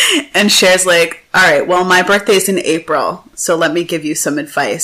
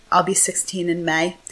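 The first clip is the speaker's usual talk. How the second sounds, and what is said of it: Imitation of Tai's Hackensack accent. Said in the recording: “I have to do her voice, because she's from, like, Hackensack.”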